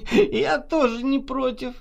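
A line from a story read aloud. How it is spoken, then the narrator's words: Drunken laughter. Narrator (Russian): нетрезво засмеялась Наташа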